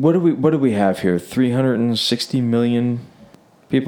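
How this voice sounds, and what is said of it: Usual voice. Nothing is said of it.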